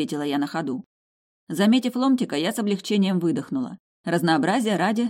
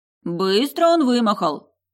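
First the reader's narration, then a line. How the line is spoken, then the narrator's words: Booming dwarf woman. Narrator (Russian): прогудела дворфийка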